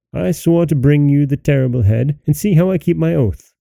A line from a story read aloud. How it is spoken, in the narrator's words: The boy cried to the king